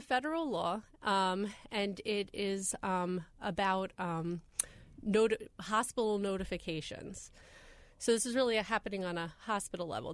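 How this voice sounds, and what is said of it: Congested, sick-sounding voice. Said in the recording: “getting over a, a, cold from a week ago, so this isn't my radio voice.”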